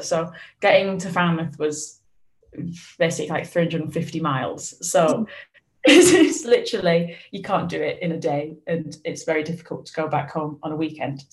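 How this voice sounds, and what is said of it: Lancashire English accent. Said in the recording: “you can't tell by the accent. I'm from like a small town in Lancashire”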